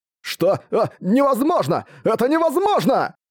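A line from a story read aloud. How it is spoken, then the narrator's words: Shouting. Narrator (Russian): Кричал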